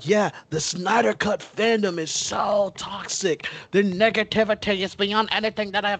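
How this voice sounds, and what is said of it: Put-on accent. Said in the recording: “That's the first time I heard you use that accent.”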